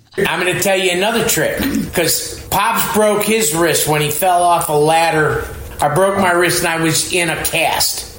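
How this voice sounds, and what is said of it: Strong Chicago accent. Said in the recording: “My parents are from Chicago ... It's really about his accent.”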